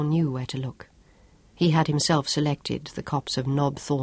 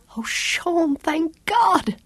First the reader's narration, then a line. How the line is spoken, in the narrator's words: cried